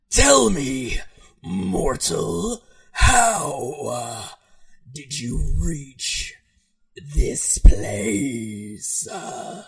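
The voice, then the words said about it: Strangely soothing character voice. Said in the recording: “in a strangely soothing voice”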